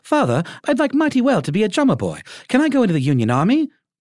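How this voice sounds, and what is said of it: British schoolboy accent. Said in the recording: “has like a British schoolboy accent”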